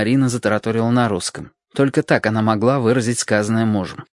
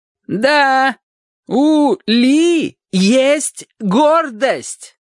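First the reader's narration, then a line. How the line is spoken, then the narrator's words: Roar. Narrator (Russian): проревела она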